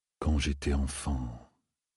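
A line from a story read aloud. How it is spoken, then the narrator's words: Murmuring. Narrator (French): murmura Loustérine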